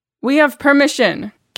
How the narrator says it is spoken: Carol called out

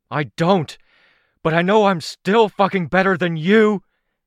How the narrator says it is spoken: Rain roared

